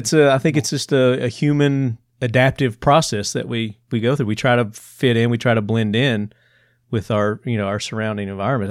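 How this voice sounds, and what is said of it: Southern US accent. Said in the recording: “my Southern accent ... it came back, and you can probably hear it now”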